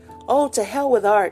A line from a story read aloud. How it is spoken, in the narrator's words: he cried